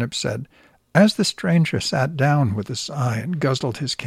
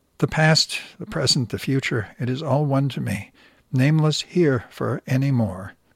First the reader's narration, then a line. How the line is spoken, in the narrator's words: said, he sighed